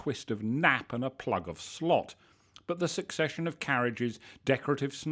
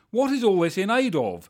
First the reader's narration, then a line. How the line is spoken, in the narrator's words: shouted